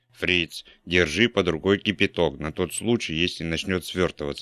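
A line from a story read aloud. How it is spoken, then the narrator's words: Plain. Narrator (Russian): сказал он Фрицу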